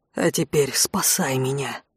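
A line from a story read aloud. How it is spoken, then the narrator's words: Tragic whisper. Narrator (Russian): трагическим шепотом произнес Конт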